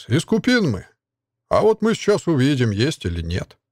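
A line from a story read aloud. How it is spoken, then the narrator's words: Bandit's snort. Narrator (Russian): хмыкнул бандит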